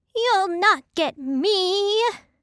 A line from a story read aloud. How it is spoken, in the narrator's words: the piggy cried